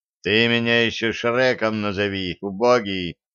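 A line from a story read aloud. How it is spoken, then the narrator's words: Booming ogre voice. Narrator (Russian): прогудел огр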